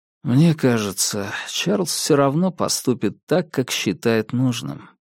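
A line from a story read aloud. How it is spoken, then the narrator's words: Quiet. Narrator (Russian): тихо промолвил я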